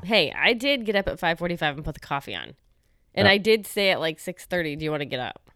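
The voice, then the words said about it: Tired, half-asleep sounding voice. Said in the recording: “you can really hear in my voice I've only had a couple sips of coffee ... you sound half dead, to be honest with you. You sound half dead.”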